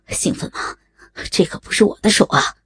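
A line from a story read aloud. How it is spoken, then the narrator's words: Panting. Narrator (Chinese): 喘着说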